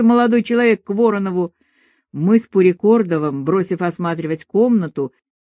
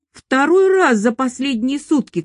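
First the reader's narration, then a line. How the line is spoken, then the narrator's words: Shouting. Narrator (Russian): кричал он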